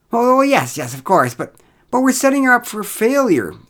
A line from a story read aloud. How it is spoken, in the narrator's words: exclaimed Derek